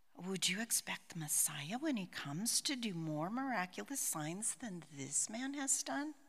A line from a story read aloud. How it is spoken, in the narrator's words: the crowds whispering